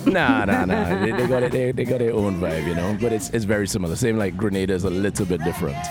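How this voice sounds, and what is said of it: Trinidadian accent. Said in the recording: “Super funky, fresh, fly guy accent. It's that Trinidad accent.”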